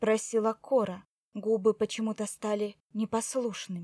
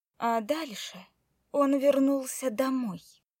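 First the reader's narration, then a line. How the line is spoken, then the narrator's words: Grim smiling tone. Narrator (Russian): мрачно улыбнулась Злата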